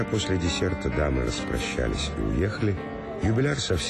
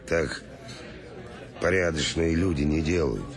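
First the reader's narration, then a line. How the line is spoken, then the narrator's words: Grumbling. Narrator (Russian): заворчал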